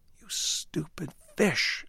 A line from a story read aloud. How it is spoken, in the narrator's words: hiss